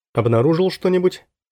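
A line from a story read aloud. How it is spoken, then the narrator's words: Plain. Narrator (Russian): спросил я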